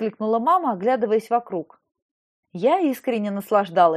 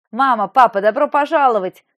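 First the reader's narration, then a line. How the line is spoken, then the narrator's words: Shouted greeting. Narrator (Russian): крикнула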